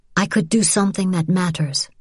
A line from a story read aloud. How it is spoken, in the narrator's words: she said quietly